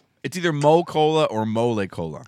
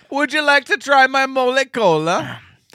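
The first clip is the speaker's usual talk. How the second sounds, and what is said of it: Put-on Italian accent. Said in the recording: “My mother's maiden name is Di Natale, so I'm allowed to do that accent.”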